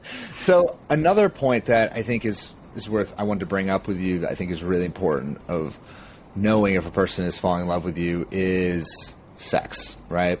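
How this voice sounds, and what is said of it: Congested, sniffly voice from a cold. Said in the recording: “sorry, everyone, for my sniffling ... I have a bit of a cold”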